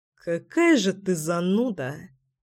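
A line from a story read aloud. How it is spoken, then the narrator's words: Muttering. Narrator (Russian): Пробормотал Семен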